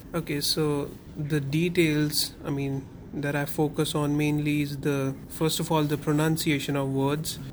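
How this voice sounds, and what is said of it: Indian-accented English. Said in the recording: “my typical Indian accent”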